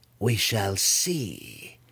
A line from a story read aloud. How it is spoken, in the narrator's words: Malice purred, her confidence growing in her former rival's decree of respect